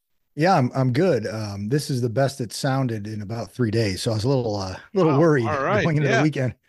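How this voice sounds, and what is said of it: Sick, rough-sounding voice. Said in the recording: “My voice is not prepared for podcasting ... you sound sick, man ... You sound sexy ... It's my 2-pack-a-day voice”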